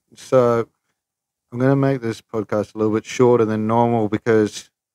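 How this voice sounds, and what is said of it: Raised, loud voice. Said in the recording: “I'm raising my voice because I'm checking the levels”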